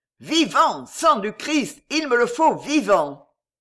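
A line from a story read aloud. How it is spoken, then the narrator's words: Shouting, drunk with joy. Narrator (French): Concini criait, ivre de joie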